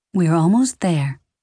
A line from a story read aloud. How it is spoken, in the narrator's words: she announced to Sprinkles